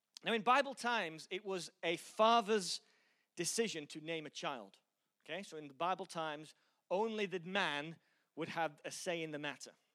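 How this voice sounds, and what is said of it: Mixed Yorkshire and American accent. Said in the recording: “my incredible accent, which is so messed up, no one even knows where it's from... Some stupid Yorkshire American twang”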